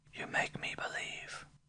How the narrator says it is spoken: Shining, my Janet whispered

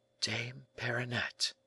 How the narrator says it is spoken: murmured the young man

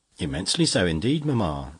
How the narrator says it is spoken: replied she

